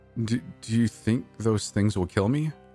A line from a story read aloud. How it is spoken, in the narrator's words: I stuttered, panic washing over me